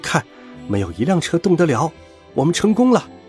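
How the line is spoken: Soft voice. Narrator (Chinese): 长耳兔轻声说道

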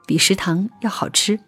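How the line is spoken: Flat, slightly reluctant. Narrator (Chinese): 心里就掠过一丝不忍心，于是淡淡的说

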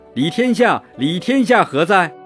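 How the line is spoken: Shouting, calling out. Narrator (Chinese): 李存勖喊道

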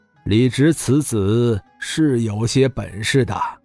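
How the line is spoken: Flat indifferent. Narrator (Chinese): 贺世寿淡淡说道

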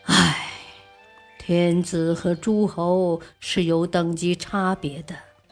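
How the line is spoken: Sighing. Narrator (Chinese): 孙光宪摇头叹息

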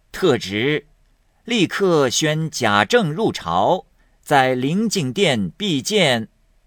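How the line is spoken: Smiling. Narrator (Chinese): 那夏守忠 满面笑容 口内说

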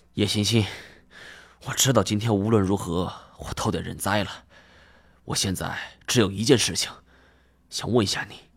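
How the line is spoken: Out of breath. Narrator (Chinese): 我喘了口气儿

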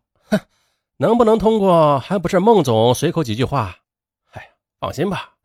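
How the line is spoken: Laughing. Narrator (Chinese): 殷家学笑道

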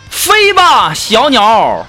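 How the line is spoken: Shouting with heartache. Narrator (Chinese): 我十分心疼的并吼道

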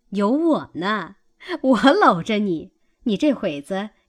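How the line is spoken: Laughing. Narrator (Chinese): 尤氏笑道

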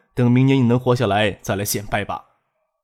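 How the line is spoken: Cold sneer. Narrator (Chinese): 冷冷的一笑

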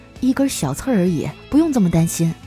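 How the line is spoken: Soft, moved. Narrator (Chinese): 嫂子很是感动啊，轻声的说

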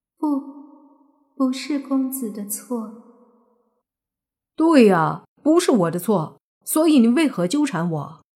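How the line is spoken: Plain. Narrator (Chinese): 莫凡说道

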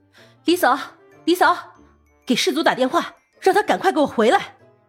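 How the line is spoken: Panicked shout. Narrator (Chinese): 毕婉晴颤抖着手……大喊

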